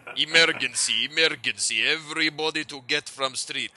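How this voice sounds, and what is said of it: Thick exaggerated cartoony Russian accent. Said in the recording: “the really like kind of thick, cartoony, like fucking, like. Like, exaggerated, the Russians are coming type accent.”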